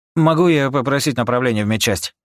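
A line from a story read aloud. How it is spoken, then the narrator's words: Rapid patter. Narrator (Russian): Протараторил Рика, как советовал бригадир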